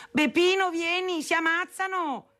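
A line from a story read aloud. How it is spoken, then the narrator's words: Shouting, calling out. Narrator (Italian): gridava chiamando mio padre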